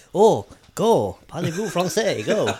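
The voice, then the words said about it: Unconvincing put-on French accent. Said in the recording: “he's going to do an accent, eh? ... The non-Frenchest accent I've ever heard ... I definitely don't do a convincing Frenchman.”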